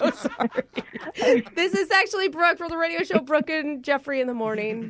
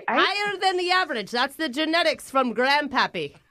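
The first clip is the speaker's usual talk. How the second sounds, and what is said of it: Mixed Australian, Irish, British, Scottish accent. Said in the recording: “my Australian, Irish, British, Scottish accent ... It's really hard to listen to”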